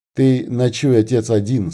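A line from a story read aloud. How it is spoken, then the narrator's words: Plain. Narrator (Russian): сказал Никита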